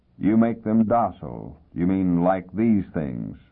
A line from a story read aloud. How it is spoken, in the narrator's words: the other said in a monotone